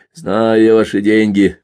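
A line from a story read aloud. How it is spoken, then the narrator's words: Grumbling sergeant. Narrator (Russian): проворчал взводный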